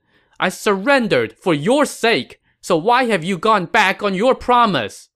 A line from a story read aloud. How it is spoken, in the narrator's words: Jiang Wei shouted